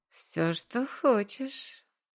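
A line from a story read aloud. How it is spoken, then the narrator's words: Purring. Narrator (Russian): мурлыкнула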